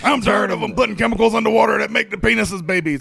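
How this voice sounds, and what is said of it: Imitates another person's voice. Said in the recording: “my Alex Jones impression ... He's Alex Jones now”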